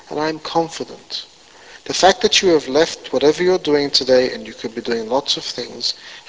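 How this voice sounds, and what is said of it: Speaks with a noticeable foreign accent. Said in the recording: “the guy coming in town with the funny accent.”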